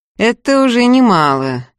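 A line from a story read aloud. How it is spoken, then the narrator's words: Sarcastic. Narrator (Russian): язвительно сообщил Михаил в темноту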